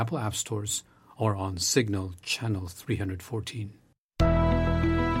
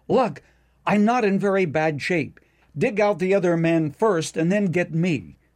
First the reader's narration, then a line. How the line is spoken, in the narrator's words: the miner called out